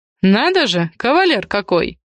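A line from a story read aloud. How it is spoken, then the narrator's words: Host snorting. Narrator (Russian): хмыкнул хозяин дома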